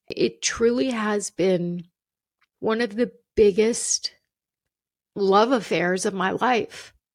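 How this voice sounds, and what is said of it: Emotional voice. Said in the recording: “I hate that I'm getting emotional”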